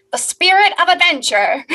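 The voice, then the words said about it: Transatlantic announcer accent. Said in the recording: “try and be the announcer guy from the very beginning ... I'm going to try and do that accent ... Transatlantic. That was nice.”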